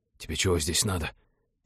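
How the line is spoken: Angry whispered question. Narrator (Russian): сердитым шепотом поинтересовался он

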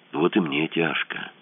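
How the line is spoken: Understanding whisper. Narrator (Russian): шепотом понимающе сказал ему Мазур

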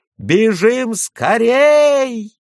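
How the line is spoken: Yelled. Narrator (Russian): завопил Юси

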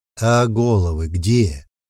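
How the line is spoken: Cool, bored question. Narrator (Russian): хладнокровным голосом спросил я, старательно исполняя образ скучающего богача, присыщенного

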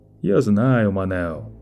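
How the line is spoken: Soft, insinuating. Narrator (Russian): продолжало Лето всё тем же мягким, вкрадчивым тоном

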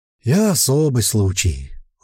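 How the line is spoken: Sad sigh. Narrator (Russian): вздохнул печальный эльф

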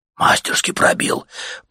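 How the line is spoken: Respectful whisper. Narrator (Russian): прошептал уважительно кто-то в собравшейся вокруг толпе

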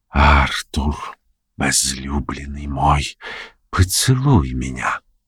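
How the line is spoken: Soft sweet malicious whisper. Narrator (Russian): Она открыла глаза, в которых горела злоба, и мягким, сладостным голосом прошептала

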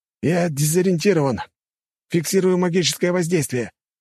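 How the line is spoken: Shouted over radio. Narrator (Russian): прокричал оператор по рации

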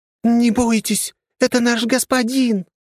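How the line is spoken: Sudden thin squeak, huge woman. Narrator (Russian): внезапно тонким голоском пропищала ближайшая мадам, примерно 2,50 ростом и весом килограмм в 250

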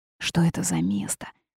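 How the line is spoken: Whispered question. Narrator (Russian): шепотом спросил Алекс

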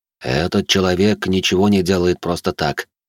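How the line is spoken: Added with heavy sigh. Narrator (Russian): добавил Фредерик и, тяжело вздохнув

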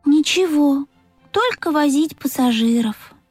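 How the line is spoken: Sighing. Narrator (Russian): вздохнул Пых

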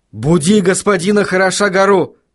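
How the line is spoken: Shout. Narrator (Russian): крикнул он

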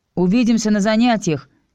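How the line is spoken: Shouted after someone. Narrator (Russian): крикнул Чес вдогонку

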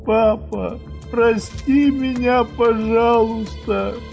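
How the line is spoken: Sobbing. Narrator (Russian): всхлипнула она

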